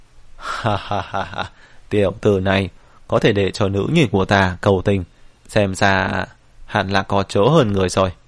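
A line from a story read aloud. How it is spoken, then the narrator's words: Loud laughing. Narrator (Vietnamese): Lâm Nhược Hiền nghe vậy cười to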